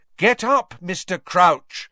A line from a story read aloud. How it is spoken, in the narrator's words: said Harry loudly and clearly